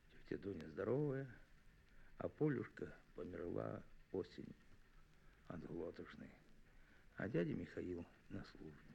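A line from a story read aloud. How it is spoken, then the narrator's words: Quiet reply. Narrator (Russian): Мишатка тихо ответил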